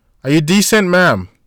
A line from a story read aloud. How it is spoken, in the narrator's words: A voice called out from behind the door